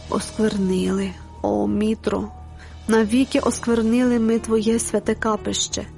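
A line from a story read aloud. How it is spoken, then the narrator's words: Groaning. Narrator (Ukrainian): застогнав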